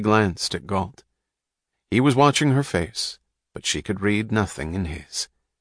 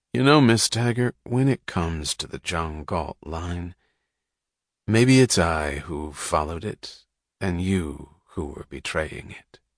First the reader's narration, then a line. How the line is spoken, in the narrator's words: said softly